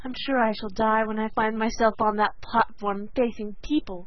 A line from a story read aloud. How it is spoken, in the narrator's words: sighed Sarah Ray